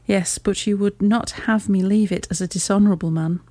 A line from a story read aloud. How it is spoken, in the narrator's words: said he